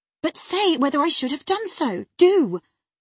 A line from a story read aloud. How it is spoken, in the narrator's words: she exclaimed in an irritated tone